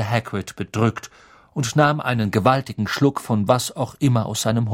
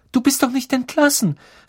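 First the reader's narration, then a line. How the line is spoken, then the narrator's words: Calling out. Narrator (German): rief Hermine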